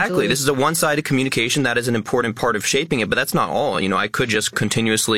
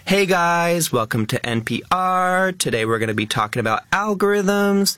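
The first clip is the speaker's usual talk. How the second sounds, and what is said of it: Lifestyle influencer voice, rising uptalk. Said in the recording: “a more algorithm-friendly voice ... the most famous sort of lifestyle influencer accent ... It has that up talk, it has the rising tone.”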